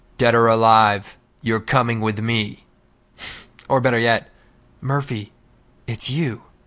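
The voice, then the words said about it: Poor RoboCop impression. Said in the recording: “RoboCop ... That's got to be the worst impression I've ever heard ... that was pretty horrible”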